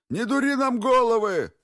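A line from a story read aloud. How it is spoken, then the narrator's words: Shout. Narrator (Russian): закричал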